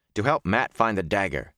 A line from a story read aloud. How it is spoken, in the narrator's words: he said sharply